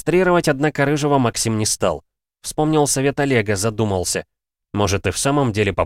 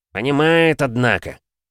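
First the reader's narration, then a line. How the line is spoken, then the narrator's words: Respectful snort. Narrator (Russian): с уважением хмыкнул сторож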